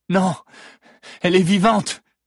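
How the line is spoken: Shout from behind. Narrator (French): crie une voix dans leur dos

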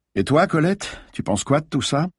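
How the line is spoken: Plain. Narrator (French): demanda Paturel

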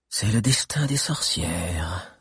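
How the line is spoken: Sighing to herself. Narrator (French): soupira-t-elle pour elle-même

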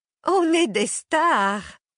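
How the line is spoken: Exclaiming. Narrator (French): s'exclame Joséphine

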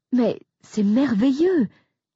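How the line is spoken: Exclaimed. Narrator (French): s'exclame Esther

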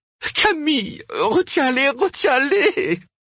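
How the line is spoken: Pleading. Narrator (French): supplia Cosima

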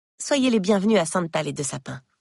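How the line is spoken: Plain. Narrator (French): dit Maddie

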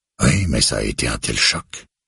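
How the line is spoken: Murmured. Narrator (French): murmure Becker

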